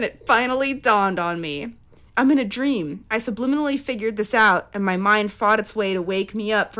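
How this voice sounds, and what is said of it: Usual voice. Nothing is said of it.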